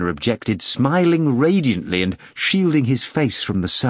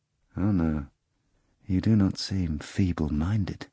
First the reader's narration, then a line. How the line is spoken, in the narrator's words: the procurator said quietly